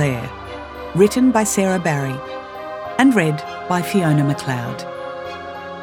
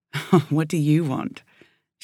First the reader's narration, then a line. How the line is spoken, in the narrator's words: she said with a laugh